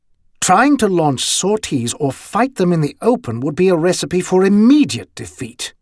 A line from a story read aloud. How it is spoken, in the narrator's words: Walkyear said, somewhat more firmly, almost harshly, than he normally spoke